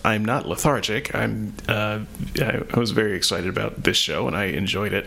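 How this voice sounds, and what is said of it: Voice sounds a bit off. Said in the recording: “my voice is a little bit off ... I just can't seem to talk very much right now.”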